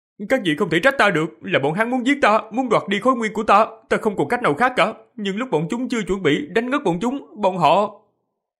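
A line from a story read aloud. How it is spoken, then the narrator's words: Feigned frightened child stammer. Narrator (Vietnamese): Diệp Phàm giả bộ sợ hãi, giả dạng thân sắc của thiếu niên 11-12 tuổi, lắp bắp, nói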